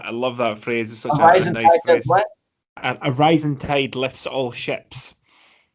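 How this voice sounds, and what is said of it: Scottish accent. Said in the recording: “the old Scottish accent kicks in there”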